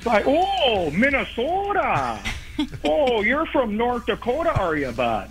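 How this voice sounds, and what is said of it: Put-on Minnesota Fargo accent. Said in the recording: “they immediately go into that Fargo accent”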